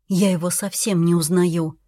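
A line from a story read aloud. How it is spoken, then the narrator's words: Quiet dropped words. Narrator (Russian): уронила тихо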